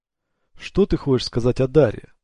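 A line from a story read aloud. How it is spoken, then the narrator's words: Sharp question. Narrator (Russian): резко спросила КТ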